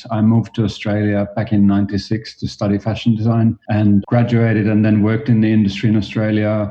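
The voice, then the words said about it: Slight Finnish accent. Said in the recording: “I am originally from Finland, and as you might hear a little bit from my accent”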